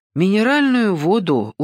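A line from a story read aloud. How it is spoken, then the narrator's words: Glum reply. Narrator (Russian): уныло ответил тот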